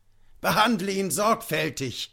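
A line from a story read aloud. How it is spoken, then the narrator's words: Officer shouting. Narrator (German): schrie der Offizier wieder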